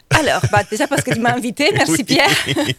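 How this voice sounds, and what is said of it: Slight Italian accent. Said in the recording (French): “ça s'entend en plus ... un petit accent ... Un petit accent ... ça vient d'où l'accent ? ... italien”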